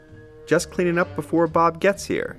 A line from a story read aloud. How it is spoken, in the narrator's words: she says